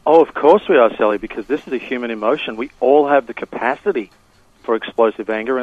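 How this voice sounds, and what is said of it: Australian accent. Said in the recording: “Originally from Australia, if you notice an accent”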